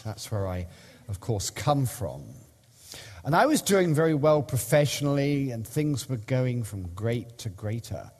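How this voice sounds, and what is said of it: British accent from London. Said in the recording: “I had a great job in London, in the UK, hence the accent.”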